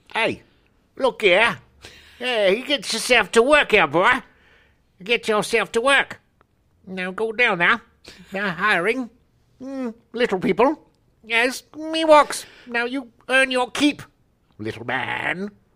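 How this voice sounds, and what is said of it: Character voice with bizarre accent. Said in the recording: “She had a bizarre accent”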